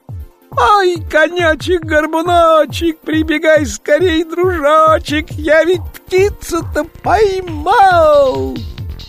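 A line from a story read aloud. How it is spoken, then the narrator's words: Shout. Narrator (Russian): Иван-дурак кричал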